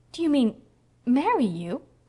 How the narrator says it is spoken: queried poor Anne feebly

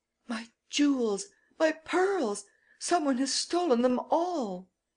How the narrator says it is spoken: came running towards us in a state of great excitement, exclaiming

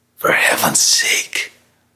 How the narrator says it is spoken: Lois muttered, sickened

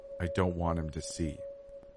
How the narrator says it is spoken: she whispered

